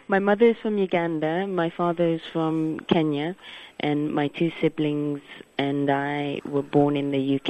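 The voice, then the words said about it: English accent. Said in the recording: “the English accent”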